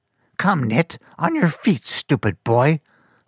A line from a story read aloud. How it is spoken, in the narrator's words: Fungus growled